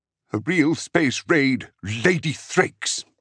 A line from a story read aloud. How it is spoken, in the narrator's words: Enzar snapped